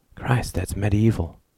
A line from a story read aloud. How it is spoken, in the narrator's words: whispered Rudy